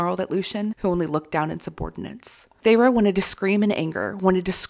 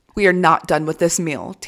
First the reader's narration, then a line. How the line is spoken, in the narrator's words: Tamlin snarled